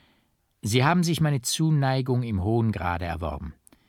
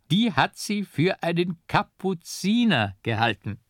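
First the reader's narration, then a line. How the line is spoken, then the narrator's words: Loud burst of laughter. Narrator (German): er lachte laut auf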